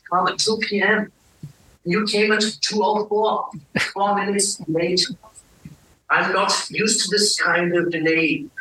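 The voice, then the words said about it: European accent. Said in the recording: “accent, some European accent”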